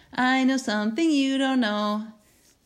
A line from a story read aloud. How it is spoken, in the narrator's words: Teeny taunted